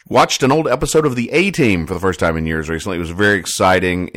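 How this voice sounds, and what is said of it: Nasal, congested voice from cold. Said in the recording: “I've been fighting kind of a cold, so if I sound a little nasally”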